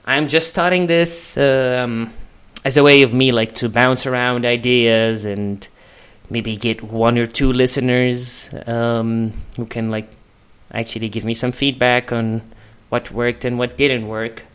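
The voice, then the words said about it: Egyptian-accented English. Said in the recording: “I'm from Egypt, which kind of explains the accent.”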